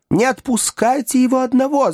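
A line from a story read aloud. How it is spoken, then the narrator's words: Women shrieking. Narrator (Russian): завизжали женщины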